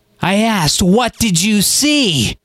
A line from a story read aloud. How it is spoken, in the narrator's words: Nana bellowed